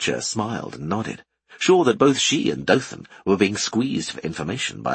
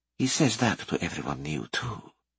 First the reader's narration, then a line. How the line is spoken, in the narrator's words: whispered Letitia